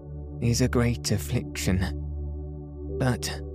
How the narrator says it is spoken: he faltered

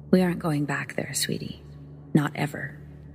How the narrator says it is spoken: say, ever so calmly, from the driver's seat

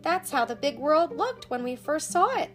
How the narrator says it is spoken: cried, began to bark happily

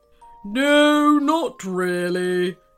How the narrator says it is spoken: came a very deep, rumbling voice

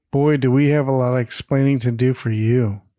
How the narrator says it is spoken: Sandra sighs, says

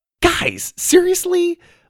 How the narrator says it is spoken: Lydia snapped

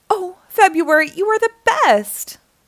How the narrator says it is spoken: January squealed

